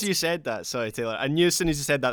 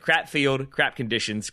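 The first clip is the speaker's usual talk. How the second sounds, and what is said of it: Put-on Scottish accent. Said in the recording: “he had a Scottish accent, so this worked better ... there was going to be a Scottish dig in there ... It really does just sound better”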